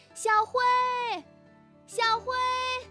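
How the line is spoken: Loud calling. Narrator (Chinese): 兔妈妈在森林里高声的喊着

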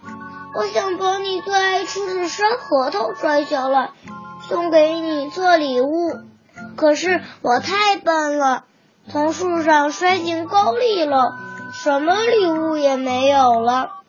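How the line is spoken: Little pig, crying. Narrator (Chinese): 小胖猪哭着说

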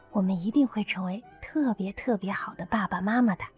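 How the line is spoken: Soft whisper. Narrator (Chinese): 刘亚楠在他耳边小声说道

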